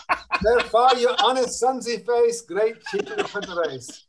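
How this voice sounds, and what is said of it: Good put-on Scottish accent. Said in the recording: “can you do a Scottish accent? ... oh, that's so good. That's so good. ... Oh, I love it when people can do a good Scottish accent.”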